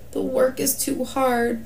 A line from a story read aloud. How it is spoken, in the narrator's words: the people all moaned